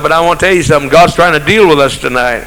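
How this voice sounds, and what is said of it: Quieter, lowered preaching voice. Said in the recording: “I'm in a lower voice now”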